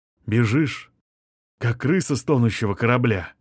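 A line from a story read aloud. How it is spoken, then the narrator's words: Hissing. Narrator (Russian): прошипел он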